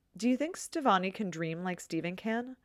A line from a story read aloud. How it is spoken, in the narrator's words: Connie blurts out